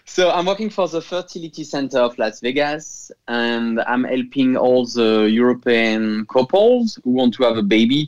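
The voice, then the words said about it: French accent. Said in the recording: “I'm sorry for my accent... ever apologize for a French accent”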